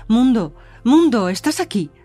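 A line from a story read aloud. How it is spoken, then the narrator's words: Shouting. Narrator (Spanish): gritar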